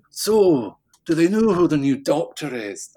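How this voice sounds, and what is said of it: Terrible imitation of Peter Capaldi's accent. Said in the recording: “A terrible accent, by the way.”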